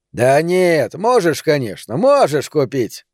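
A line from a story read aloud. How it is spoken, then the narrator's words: Mocking goading. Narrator (Russian): насмешливо подстегнул Тони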